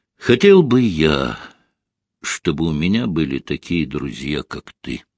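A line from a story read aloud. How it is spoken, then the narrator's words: Quiet addition. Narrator (Russian): Костя негромко добавил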